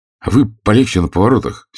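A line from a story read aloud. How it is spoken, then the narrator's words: Angry. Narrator (Russian): сердито сказал Лопатин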